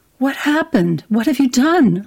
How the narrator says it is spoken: cried

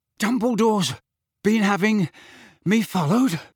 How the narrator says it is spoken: Harry panted

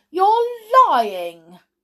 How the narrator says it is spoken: he cried

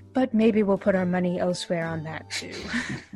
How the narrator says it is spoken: you hear him kind of mutter a little quietly

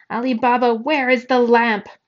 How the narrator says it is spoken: a very large and very angry ogre who is screaming, spitting in his face

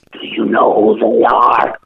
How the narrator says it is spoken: she whispers

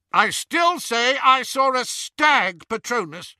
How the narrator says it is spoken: shouted the first Death Eater

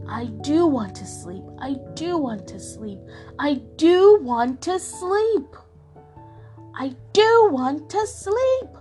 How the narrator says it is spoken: shouted at home

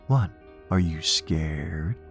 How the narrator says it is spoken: he would taunt at them

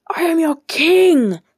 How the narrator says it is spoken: thundered Agamemnon

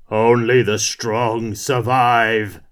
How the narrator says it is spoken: bellowed

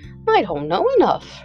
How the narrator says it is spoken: replied the Scarecrow cheerfully

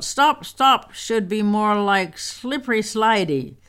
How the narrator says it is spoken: Rostropovich called out

